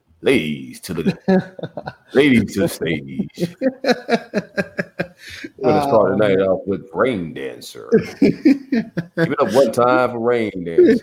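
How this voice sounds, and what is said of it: Strip club DJ announcer voice. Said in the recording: “I had to talk to my favorite script club DJ voice.”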